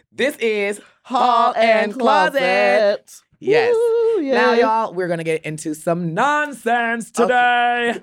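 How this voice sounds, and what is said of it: Loud yelling voice. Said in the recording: “Why are you yelling ... I am yelling because I'm loud ... And I always scream.”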